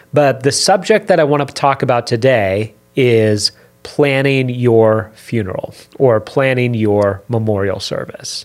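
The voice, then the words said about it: Slightly raspy voice. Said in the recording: “my voice is a little raspy, I apologize. I'm getting past a cold right now.”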